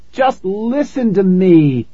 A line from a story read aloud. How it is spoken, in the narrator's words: I cried